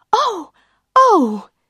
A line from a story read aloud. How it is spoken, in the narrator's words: She cried